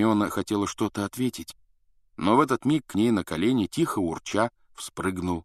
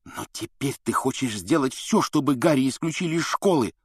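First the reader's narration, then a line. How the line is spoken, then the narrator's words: Angry hiss. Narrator (Russian): зло прошипел Рон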